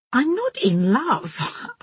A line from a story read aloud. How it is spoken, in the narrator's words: laughed